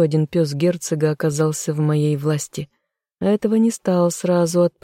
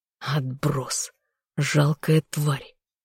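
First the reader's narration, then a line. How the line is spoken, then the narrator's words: Contemptuous inner growl. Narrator (Russian): зарычал мысленно, чувствуя презрение к шавке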